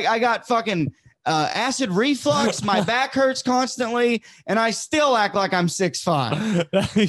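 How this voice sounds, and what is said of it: Southern US accent. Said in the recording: “You're from the South. ... You have an accent where it's like, is he doing a character right now?”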